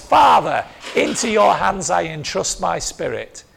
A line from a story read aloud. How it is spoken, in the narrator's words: Jesus called out with a loud voice